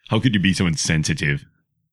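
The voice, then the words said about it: Attempted Tasmanian accent. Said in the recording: “I don't know if that's a Tasmanian accent.”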